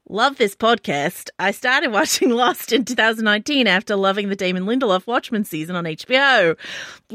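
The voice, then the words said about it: Put-on Australian accent. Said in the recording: “Aussie accent ... I apologize, Australia.”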